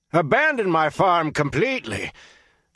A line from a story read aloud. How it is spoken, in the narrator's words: Flan shouted right on top of Witt's